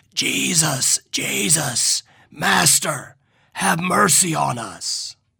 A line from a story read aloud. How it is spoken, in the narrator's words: Imagine 10 raspy voices crying out